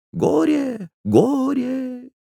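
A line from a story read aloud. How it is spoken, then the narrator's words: Thin high voice, repeating. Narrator (Russian): Отец Христофор повторил тонким голоском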